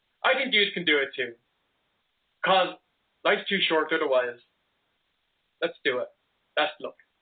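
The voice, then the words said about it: Speaks with a noticeable accent. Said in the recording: “that accent ... definitely has an accent.”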